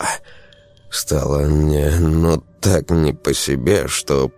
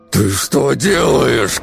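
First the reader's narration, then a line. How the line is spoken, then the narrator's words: Shouting through gritted teeth. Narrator (Russian): казалось, дядя Юра кричал сквозь зубы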